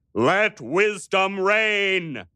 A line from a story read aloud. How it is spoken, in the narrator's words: he thundered at them